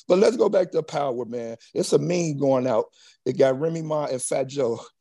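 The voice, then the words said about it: Hoarse, strained voice. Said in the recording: “Please forgive me, my voice. I lost my voice last night, you know, yelling and all that stuff. So that's why I'm sounding like this.”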